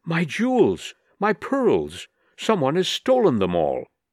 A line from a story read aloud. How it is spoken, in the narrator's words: Lady Jerland, Miss Nelly's friend, in a state of great excitement, exclaiming